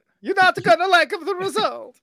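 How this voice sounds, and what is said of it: Super Mario-style Italian accent. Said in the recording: “that one should be the Mario accent.”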